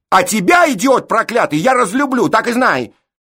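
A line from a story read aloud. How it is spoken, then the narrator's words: Shouting. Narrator (Russian): закричала Эшлин на жениха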